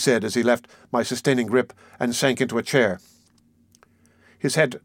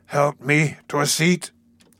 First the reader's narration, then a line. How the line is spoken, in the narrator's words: he said in the same hoarse, frightened voice